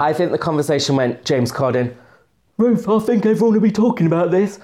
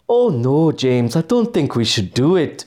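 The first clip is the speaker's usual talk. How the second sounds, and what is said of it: Attempted Welsh accent sounding Indian. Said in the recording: “I didn't know Ruth Jones was from Mumbai ... I'm so sorry to anyone Welsh ... does she put on that accent? ... you made it seem like she's straight out of New Delhi”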